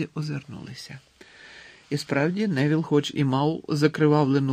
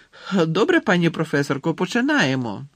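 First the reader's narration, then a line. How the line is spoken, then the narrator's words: Exclaiming. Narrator (Ukrainian): вигукнув Рон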